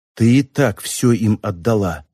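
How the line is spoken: Whisper. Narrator (Russian): прошептала Мичи

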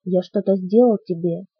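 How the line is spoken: Quiet question. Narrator (Russian): тихо спросил Билл

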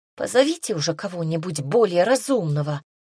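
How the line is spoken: Angry demand. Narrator (Russian): сердито потребовала Агата

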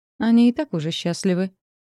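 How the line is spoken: Dry objection. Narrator (Russian): сухо возразил Риан

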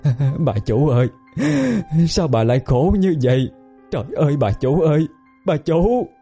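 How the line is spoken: Old woman wailing, sobbing. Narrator (Vietnamese): Bà Cải khóc lóc nỉ non

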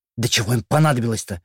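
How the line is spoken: Hiss. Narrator (Russian): прошипела племянница визиря

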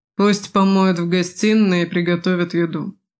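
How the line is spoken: Grumbled. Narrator (Russian): буркнула Эйталь

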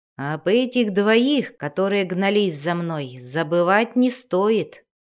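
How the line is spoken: Plain. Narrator (Russian): сказал Энтрери

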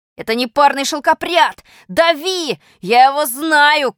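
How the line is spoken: Shouting. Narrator (Russian): крикнул один из них

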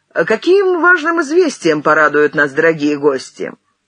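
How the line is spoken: Cheerful question. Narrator (Russian): Бабосов весело спросил

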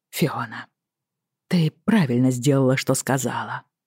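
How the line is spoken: Soft. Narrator (Russian): мягко произнес он

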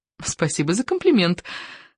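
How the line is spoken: Said in French. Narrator (Russian): сказала по-французски Лили и засмеялась

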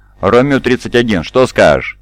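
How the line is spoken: Mock-stern question. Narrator (Russian): нарочито суровым тоном спросил Зуши

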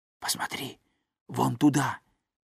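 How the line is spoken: Whisper. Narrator (Russian): прошептал Том

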